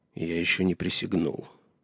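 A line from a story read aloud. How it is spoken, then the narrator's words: Muttered. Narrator (Russian): пробормотал Джон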